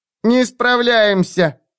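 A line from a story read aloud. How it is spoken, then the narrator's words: Demon's squeak. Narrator (Russian): пискнул демон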